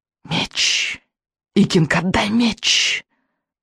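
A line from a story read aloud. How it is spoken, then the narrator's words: Witch's hiss. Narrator (Russian): прошипела ведьма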